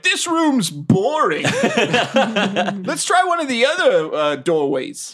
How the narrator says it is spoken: yelled

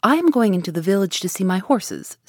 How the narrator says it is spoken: said he

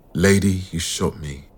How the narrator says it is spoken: says in that gentle, soft voice

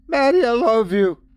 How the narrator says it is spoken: she cries out seconds before impact

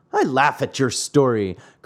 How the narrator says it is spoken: cried the man angrily

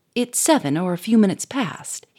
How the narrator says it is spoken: he said sharply

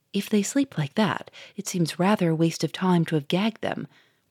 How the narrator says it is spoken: whispered the Duke to the inspector

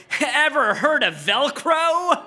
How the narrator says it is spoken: you said with a laugh

